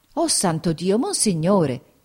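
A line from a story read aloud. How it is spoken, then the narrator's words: Exclaimed. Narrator (Italian): esclamò Peppe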